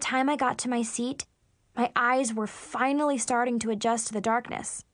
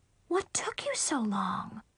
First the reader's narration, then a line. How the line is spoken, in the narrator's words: Mom whispered really loudly